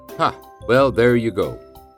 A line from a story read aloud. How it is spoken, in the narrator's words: laughed mom